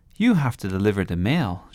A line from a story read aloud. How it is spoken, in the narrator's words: said